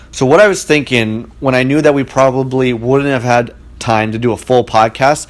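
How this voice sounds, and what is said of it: Radio announcer style voice. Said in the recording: “you can probably tell I'm doing radio voice right now”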